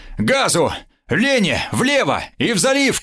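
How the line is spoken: Shouting. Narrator (Russian): крикнул

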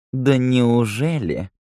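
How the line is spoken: Purring. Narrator (Russian): промурлыкала Лола

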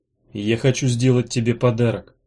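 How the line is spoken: Soft gentle voice. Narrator (Russian): сказал он мягко

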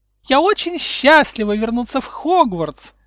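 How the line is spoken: High girlish voice. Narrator (Russian): сказала Амбридж высоким девичьим голоском

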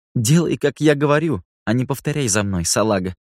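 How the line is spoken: Laughing loudly. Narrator (Russian): расхохоталась она

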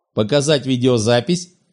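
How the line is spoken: Sarcastic question. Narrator (Russian): язвительно поинтересовался адмирал

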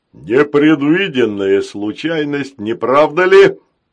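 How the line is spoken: Growling robot. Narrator (Russian): прорычал рогатый робот

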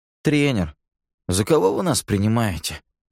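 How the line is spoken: Offended sigh. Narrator (Russian): обиженно вздохнул Ники

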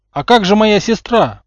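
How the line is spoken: Exclaimed. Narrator (Russian): воскликнул Рон

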